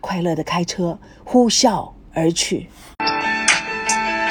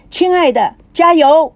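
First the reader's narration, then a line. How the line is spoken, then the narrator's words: Stunned shout. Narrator (Chinese): 高培志呆住了，回声喊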